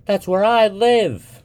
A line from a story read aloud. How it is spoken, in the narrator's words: she said impatiently